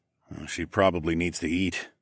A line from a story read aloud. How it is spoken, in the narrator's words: I muttered